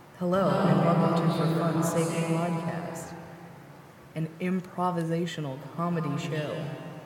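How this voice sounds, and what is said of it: NPR-style radio announcer voice. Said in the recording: “You should do an NPR voice”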